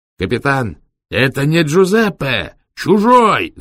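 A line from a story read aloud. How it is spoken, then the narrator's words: Shouting from behind. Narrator (Russian): закричали сзади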